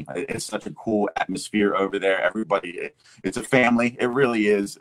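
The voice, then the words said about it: Classic radio announcer voice. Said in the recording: “I love his voice. I'm kind of envious of his voice. That's a radio voice for sure.”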